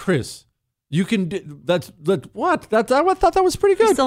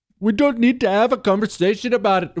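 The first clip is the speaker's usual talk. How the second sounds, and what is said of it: Put-on Indian accent. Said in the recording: “Chris doesn't think I can do an Indian accent.”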